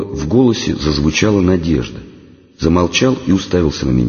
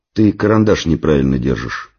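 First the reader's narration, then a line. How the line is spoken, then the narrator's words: Plain. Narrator (Russian): сказал я Славке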